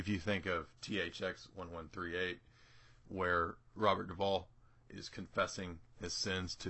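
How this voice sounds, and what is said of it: Usual voice. Nothing is said of it.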